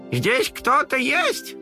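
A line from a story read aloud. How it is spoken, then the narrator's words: Grandmother's loud question. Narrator (Russian): громко спросила бабушка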